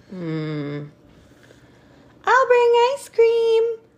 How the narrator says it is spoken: I screamed

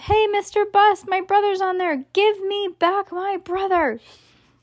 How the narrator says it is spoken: she yelled

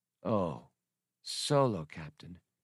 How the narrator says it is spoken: she breathed, understanding what had happened

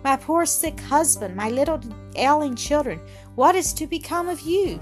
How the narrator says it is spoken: She sighed, tears stealing from beneath the closed eyelids and trickling down the pale cheeks

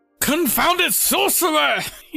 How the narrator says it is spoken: he kind of yelled out

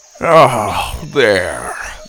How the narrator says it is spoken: Grandpa sighed

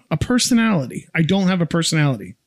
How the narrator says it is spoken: Peter blurts out

